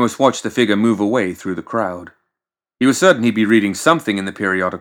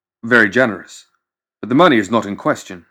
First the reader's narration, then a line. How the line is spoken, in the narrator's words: Ramos said